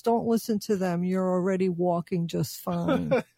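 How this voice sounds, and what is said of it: Voicing a dog character. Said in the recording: “That's a great impersonation”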